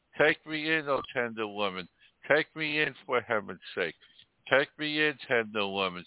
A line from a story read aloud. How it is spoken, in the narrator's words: sighed the snake